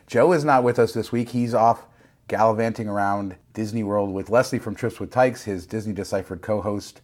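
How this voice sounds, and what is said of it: Hoarse, strained voice. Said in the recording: “My voice is gone ... I have Detroit voice ... I'm the one who lost my voice”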